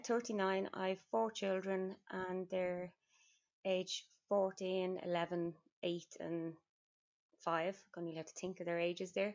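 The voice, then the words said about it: Irish accent. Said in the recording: “Your Irish accent.”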